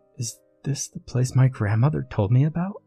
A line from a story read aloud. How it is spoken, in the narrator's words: Emma whispered